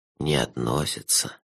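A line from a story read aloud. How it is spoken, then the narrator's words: Soft repetition. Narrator (Russian): мягко повторил он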